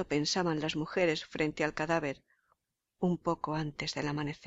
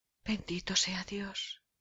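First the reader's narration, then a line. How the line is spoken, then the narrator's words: Group sighing. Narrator (Spanish): suspiraron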